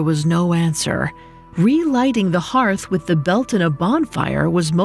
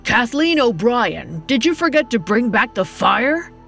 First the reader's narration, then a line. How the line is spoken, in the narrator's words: He shouted across the house